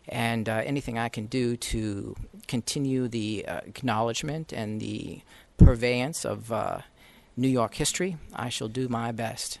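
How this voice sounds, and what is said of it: Attempted Virginian accent. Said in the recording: “I am attempting a Virginian accent right now”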